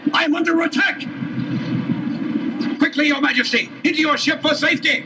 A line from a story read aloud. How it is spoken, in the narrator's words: yelled the captain of his personal guard